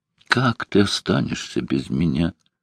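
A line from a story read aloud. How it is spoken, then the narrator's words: Soft whisper. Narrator (Russian): тихо прошептала она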